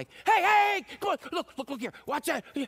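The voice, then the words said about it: Shouting like a coach. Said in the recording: “We're shouting.”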